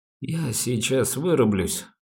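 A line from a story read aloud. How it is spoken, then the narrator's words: Sleepy complaint. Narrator (Russian): сонным голосом пожаловался Рогожин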